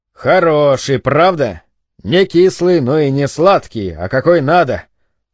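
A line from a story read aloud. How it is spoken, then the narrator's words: Laughing. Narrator (Russian): Он рассмеялся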